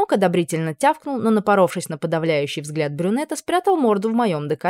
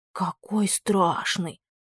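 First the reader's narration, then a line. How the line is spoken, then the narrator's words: Whisper, mock horror. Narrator (Russian): прошептала в притворном ужасе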